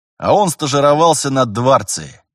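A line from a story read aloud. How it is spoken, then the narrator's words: Wry snort. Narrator (Russian): Терентьев хмыкнул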